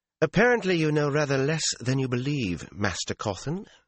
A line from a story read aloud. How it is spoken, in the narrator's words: she said coolly